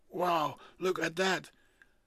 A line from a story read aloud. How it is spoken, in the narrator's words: He suddenly hears himself shout